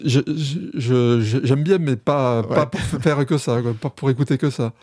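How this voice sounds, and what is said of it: Southern French accent. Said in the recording (French): “ton accent du Sud”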